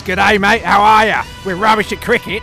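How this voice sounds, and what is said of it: Mock Australian accent. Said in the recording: “he's Australian. So we have this annoying Aussie twang all day in our ears.”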